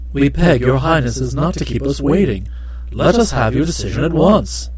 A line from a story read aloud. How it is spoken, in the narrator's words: the Kai Kai grew impatient and exclaimed